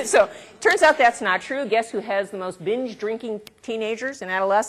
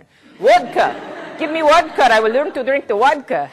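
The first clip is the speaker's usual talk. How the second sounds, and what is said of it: Put-on Russian accent. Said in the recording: “I don't know why I'm having a Russian accent”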